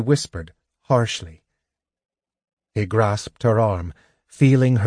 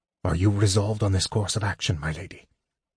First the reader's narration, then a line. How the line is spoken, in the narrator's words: He said softly